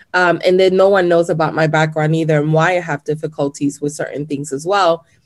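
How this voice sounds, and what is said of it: Latina accent in English. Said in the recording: “you have an accent, because I get that a lot because I'm Latina... I do have an accent. English is my second language”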